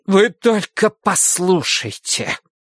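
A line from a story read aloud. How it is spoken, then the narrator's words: Hissing. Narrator (Russian): прошипела Ида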